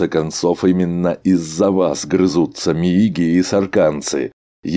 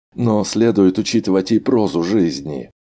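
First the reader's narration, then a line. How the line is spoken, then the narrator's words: Sighing. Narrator (Russian): вздохнул Арнольд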